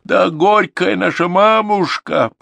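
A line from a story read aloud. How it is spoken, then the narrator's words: Daughter's wild wail. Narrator (Russian): по-дикому закричала одна из дочерей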